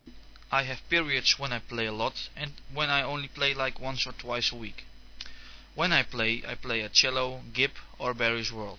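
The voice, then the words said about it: Dutch accent in English. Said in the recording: “they both are from the Netherlands. So if you can't understand their accent, that's why.”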